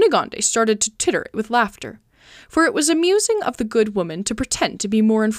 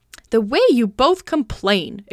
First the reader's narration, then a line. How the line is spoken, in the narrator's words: exclaimed the old woman